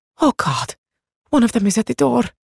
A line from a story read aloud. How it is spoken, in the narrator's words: she whispered